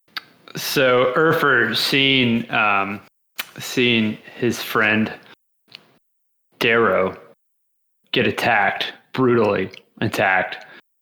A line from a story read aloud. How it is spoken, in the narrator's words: he yells